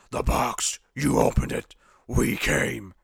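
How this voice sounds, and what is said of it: Imitates a horror film character's voice. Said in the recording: “Great voice. ... I don't know how good my impression actually is”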